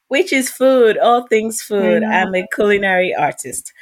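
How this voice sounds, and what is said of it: Switches to a different accent. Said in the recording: “the way your tongue changed ... why did you change the accent”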